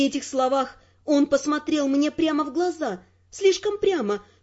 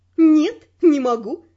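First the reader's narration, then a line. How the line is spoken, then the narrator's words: Laughing. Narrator (Russian): рассмеялась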